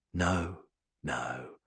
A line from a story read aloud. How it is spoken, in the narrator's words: he says calmly